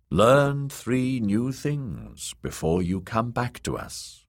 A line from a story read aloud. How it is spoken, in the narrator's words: the kindly man had commanded